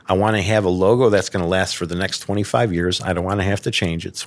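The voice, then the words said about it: Chicago accent. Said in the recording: “He was a fellow Chicagoan, so as soon as he heard my accent”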